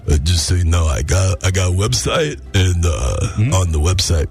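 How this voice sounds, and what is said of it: Sylvester Stallone Rocky impression. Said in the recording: “you can talk like this ... But you sound stupid ... official Sly Stallone ... Rocky Fedora ... You can wear the hat if you don't do the voice ... Don't do the voice ... The voice comes with a hat.”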